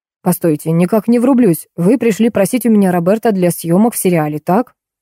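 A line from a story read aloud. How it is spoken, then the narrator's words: Plain. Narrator (Russian): спросил Кирилл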